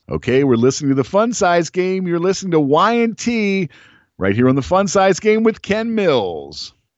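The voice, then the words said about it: Radio DJ voice impression of Matt Porter. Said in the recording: “your best Matt Porter DJ voice”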